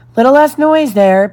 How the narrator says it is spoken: Peter called out

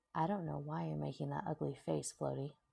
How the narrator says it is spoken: Bakugo said in a low voice, leaning toward her so only she could hear

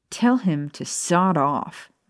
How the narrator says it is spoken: Maya growled

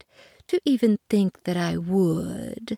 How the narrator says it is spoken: purred the cat

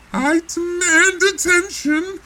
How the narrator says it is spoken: the Eggman screamed, the rage returning to his voice

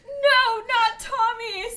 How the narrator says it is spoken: screamed Ginny

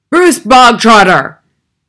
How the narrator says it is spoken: the Trunchbull barked suddenly

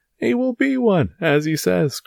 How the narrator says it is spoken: cried Porthos

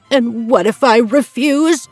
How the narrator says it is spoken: said, gasping at the very thought of this lowly tailor being his partner

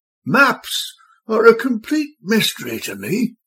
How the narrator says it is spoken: barked

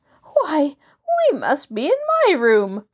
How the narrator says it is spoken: Floretta gasped

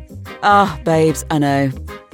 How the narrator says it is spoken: he laughed into his glass

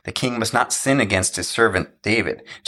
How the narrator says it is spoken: Jonathan said

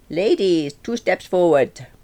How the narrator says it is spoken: Franco shouted

